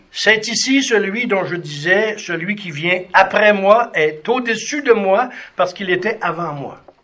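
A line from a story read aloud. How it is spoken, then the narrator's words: Cried out. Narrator (French): Jean lui rendit témoignage lorsqu'il s'écria en disant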